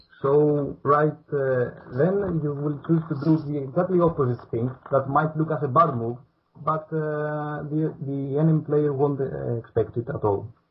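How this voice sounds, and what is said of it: Strong non-native English accent. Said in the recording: “I believe my accent is not very good”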